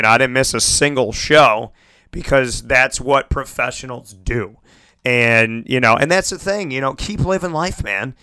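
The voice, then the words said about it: Hoarse, raspy voice. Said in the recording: “My voice has been in and out, you know, for the last week ... it's been a little bit hoarse, you know, a little bit raspy”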